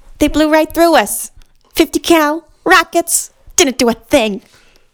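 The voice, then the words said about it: Imitates another person's voice. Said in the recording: “I've got a pretty good Michelle Rodriguez impression.”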